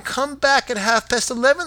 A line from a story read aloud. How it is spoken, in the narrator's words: they cried